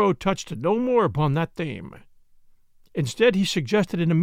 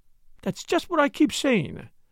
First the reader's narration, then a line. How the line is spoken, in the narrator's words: cried Flora eagerly